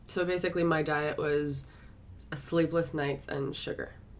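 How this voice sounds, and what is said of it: Strained, hoarse voice. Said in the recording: “I started to lose my voice”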